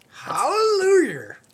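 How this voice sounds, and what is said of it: Imitates another person's voice. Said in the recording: “my Tyler Perry impersonation”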